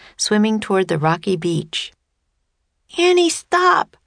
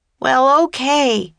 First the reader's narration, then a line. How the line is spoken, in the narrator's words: he shouted